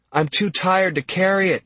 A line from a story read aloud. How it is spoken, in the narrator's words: he shouted back